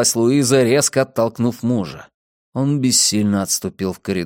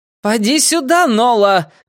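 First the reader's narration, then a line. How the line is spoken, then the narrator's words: Mother shouting. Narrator (Russian): кричала мать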